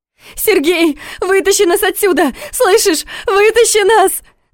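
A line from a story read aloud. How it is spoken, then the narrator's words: Desperate scream. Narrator (Russian): закричала Саша, когда поняла, что ей не убежать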